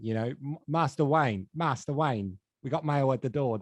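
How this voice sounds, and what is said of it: Michael Caine Cockney impression. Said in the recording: “the Cockney one is the easiest one to start... the guy in like the Batman movies who's like Bruce Wayne's butler... Michael Caine”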